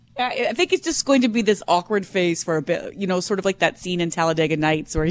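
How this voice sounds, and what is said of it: Usual voice. Nothing is said of it.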